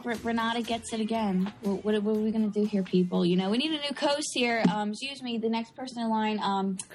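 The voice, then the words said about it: South Philadelphia accent, rushed words. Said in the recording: “South Philadelphia accent, rushing words.”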